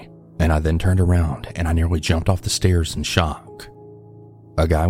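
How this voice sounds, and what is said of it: Usual voice. Nothing is said of it.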